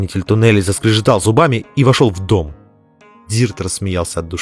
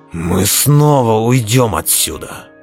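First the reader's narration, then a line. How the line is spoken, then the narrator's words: Growled. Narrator (Russian): прорычал Белвар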